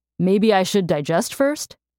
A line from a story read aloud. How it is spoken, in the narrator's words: Mercy laughed at his joke